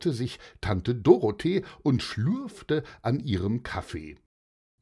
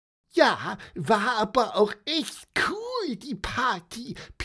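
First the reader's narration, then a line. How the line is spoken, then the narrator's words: Squeaky voice. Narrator (German): piepste Pieper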